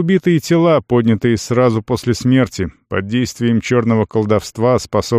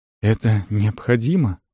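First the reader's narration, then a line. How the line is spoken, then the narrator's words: Trembling voice. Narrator (Russian): спросил Рисан дрогнувшим голосом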